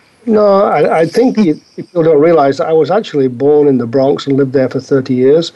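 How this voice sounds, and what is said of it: British English accent. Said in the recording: “I couldn't quite tell that you, you'd ever left the UK. You still have a good part of that accent there.”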